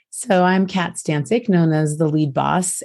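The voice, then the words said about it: Hoarse, raspy voice. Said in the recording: “I'm getting over laryngitis. So I don't always sound exactly like this”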